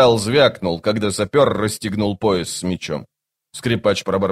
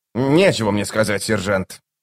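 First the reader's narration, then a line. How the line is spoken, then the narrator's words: Sullen grumble. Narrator (Russian): угрюмо проворчал он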